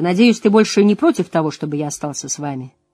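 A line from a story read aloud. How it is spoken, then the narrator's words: Dry. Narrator (Russian): сухо сказал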